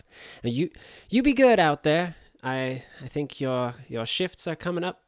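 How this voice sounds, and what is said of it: Inconsistent character accent. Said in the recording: “My accents are shifting all over the place.”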